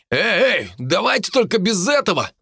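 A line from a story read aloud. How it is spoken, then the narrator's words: Shouted. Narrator (Russian): выкрикнул Дарт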